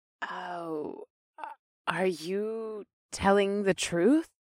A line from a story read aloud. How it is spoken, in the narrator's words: she whispered